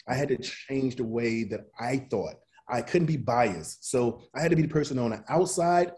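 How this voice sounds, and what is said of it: American Southern accent. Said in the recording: “my accent, being a Southern accent,”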